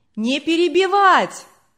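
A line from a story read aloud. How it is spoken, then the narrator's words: Distant crowd shouting. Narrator (Russian): кричали на задних рядах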